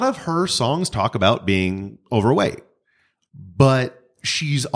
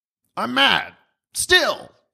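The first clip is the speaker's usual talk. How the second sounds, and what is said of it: Imitates another person's voice. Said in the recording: “He sounds exactly like that, by the way. Did you guys like my impression? It's pretty, nope, pretty accurate.”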